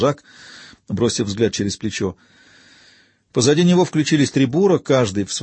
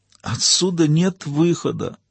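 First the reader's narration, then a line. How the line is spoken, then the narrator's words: Moaning. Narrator (Russian): простонал Гордий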